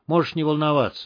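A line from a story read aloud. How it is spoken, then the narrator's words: Calm. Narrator (Russian): спокойно сказал Крот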